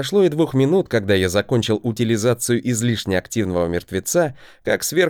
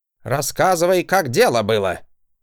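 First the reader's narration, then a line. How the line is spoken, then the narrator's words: Barking shout. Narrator (Russian): Гаркнул он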